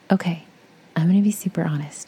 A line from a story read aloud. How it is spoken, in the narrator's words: said, almost nervously